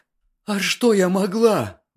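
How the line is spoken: Exclamation breaking into sobs. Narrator (Russian): воскликнула она и зарыдала

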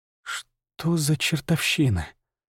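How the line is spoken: Whisper. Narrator (Russian): прошептал

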